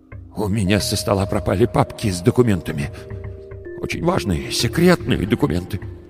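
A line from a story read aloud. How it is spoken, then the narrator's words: Trembling voice. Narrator (Russian): дрожащим голосом сказал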